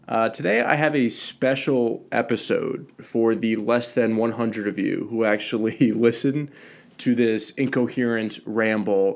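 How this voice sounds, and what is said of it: Stuffy, congested voice from a cold. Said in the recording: “Sorry if I sound a little stuffy today ... fighting through a little bit of a cold”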